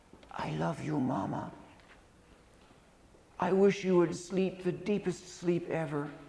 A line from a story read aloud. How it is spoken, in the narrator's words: little girl had whispered in her mama's ear said